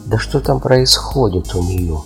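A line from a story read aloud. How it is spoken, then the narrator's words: Plain. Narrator (Russian): спросила королева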